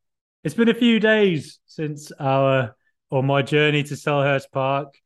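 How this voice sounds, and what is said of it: Usual voice. Nothing is said of it.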